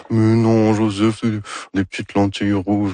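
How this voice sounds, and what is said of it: Imitates another person's voice. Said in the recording (French): “mon imitation de Dorval ... C'est très réussi”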